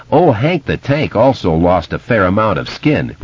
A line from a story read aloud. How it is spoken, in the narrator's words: Richie murmured